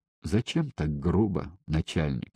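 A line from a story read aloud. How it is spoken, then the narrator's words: Quiet question. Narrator (Russian): Карасев тихо спросил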